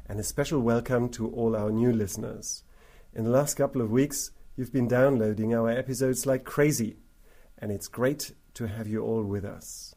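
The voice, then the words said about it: Congested, husky voice. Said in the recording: “As you can hear from my voice, I've been off my feet with a cold for quite a while ... I sound absolutely sexy”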